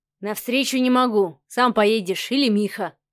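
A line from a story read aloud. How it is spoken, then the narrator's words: Snorting. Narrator (Russian): хмыкнул Адмиралов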